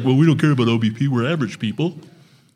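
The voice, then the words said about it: Contemptuous imitation of another person's voice. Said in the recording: “I was doing my Britton impression ... I said it just like that with so much contempt like you just did ... I said it like a normal person”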